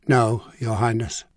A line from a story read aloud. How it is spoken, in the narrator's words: the bishop admitted, his voice sad but unflinching